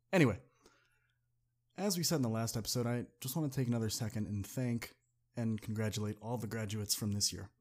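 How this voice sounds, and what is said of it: Sick-sounding voice. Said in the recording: “I'm a little sick, so my voice is a little under the weather ... my throat's swelling up”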